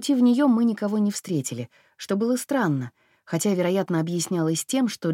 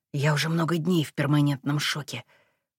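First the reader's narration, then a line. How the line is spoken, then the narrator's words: Whisper. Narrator (Russian): прошептал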